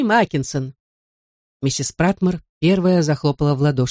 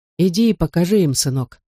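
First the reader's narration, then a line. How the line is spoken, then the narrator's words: Plain. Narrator (Russian): сказал отец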